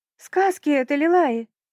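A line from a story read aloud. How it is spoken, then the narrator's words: Shrieking, voice breaking. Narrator (Russian): завизжала, срывая голос, стервель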